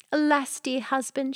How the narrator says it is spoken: she cried

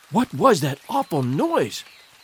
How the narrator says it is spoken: she whispered

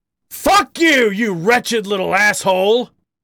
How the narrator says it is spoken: Harry bellowed

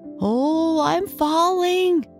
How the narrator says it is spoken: he cried

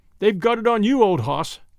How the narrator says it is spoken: chuckled and said

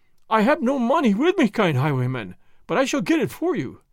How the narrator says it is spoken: the dealer cried

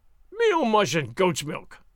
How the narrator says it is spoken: snorted Sergeant Gonzalez in huge disgust

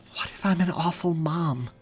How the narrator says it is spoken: Mary asked so quietly that it appeared as though she didn't even want to put the idea out into the universe

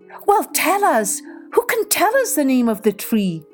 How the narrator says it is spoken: cried the animals

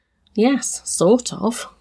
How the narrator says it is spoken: murmured

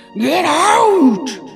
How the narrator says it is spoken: screamed

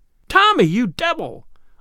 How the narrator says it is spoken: almost screamed Tuppence

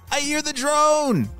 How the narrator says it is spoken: he shouted

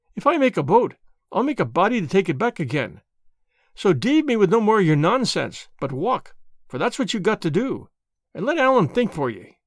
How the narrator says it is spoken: cried Alan

